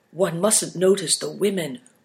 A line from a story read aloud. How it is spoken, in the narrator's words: whispered Big Tiger